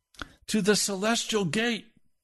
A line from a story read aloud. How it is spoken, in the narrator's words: He yelled back to them